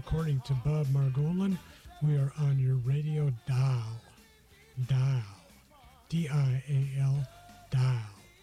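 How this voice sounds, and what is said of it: Mock Southern accent. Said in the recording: “making fun of Southern accents”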